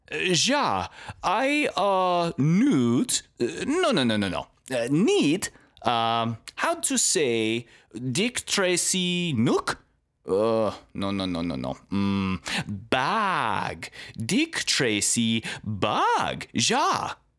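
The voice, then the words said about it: Put-on Dutch accent. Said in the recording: “putting on my best Dutch accent”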